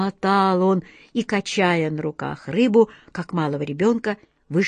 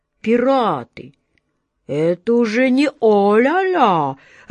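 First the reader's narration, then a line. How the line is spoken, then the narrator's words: Confused drawl. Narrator (Russian): растерянно протянул капитан Жан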